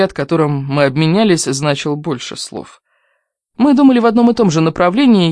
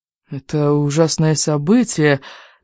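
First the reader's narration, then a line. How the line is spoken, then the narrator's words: Uncertain voice. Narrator (Russian): говорил он неуверенным голосом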